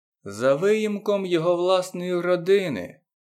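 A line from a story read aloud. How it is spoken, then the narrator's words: Muttering to herself. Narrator (Ukrainian): промощала собі під ніс Багіра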